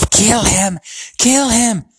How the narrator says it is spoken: Voldemort's yell of

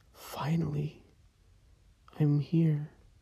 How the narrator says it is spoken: She sighed and said in a raspy voice

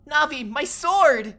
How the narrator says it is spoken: Link yelled

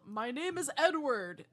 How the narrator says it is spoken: he once yelled

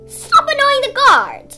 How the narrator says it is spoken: Danaid shouted at Admiral, interrupting him

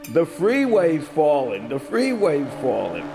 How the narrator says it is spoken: he yells

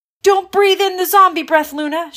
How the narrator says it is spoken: shouted Lila

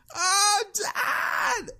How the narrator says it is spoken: starting crying and yelling

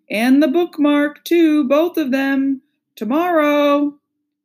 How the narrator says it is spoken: Jack said loudly

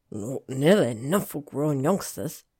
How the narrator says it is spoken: Hagrid grumbled

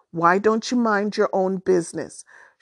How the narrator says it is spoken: She snapped

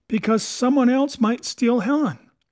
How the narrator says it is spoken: blurted

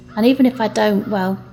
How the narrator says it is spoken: he chuckled

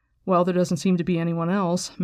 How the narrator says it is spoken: Matt said dryly

